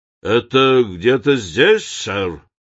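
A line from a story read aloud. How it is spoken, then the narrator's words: Hoarse muffled question. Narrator (Russian): хрипло спросил кучер через стекло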